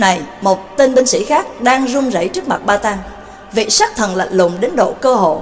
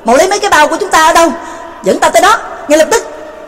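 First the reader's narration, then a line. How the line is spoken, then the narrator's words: Urgent loud shout. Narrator (Vietnamese): Trương Lập sực nhớ ra, vội chụp lấy tên binh sĩ, lớn tiếng quát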